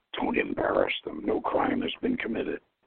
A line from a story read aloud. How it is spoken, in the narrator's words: Ahud mutters